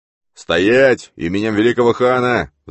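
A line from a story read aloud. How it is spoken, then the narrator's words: Roar. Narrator (Russian): взревел сарайский эмир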